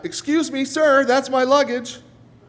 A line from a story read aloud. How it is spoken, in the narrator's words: yelling out